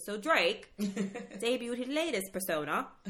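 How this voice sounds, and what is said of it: Attempted British accent. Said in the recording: “I'm going to try to do, my best. I'm going to try and do my best British accent.”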